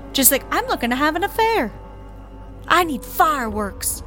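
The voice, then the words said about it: Texas woman accent. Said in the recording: “That's pretty good Texas girl accent.”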